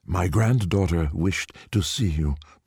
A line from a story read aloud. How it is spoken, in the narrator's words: Poipoi said